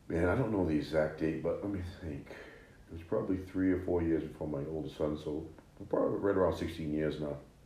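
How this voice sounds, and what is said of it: Maine regional accent. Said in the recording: “Out there in Maine ... I still haven't lost the accent.”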